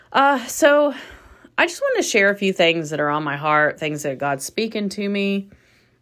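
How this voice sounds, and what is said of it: Congested, nasal voice. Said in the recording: “I was just sharing about my sinuses, in case you hear it in my voice or nasal area is just jacked up”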